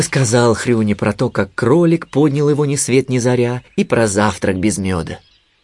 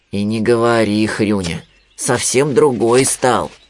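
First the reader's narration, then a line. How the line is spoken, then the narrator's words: Sadder sigh. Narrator (Russian): еще грустнее вздохнул Винни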